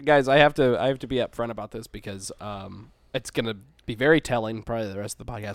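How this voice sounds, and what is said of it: Sick, nasal voice. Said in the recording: “I am sick. You could probably tell by my voice. It's a little nasally right now.”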